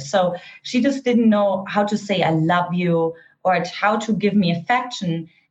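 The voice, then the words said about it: Eastern German accent. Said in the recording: “I grew up in an Eastern German household, for those of you who couldn't detect my accent”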